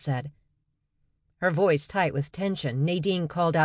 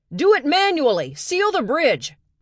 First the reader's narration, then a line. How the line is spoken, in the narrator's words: Rogers shouted